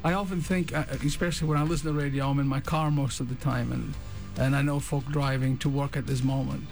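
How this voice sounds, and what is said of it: Scottish accent. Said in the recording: “what I lack in timbre, I hope I make up an accent... I'm a Scotsman”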